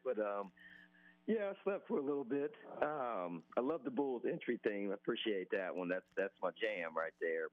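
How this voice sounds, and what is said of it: Hoarse, strained voice. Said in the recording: “As you can tell, I kind of lost my voice”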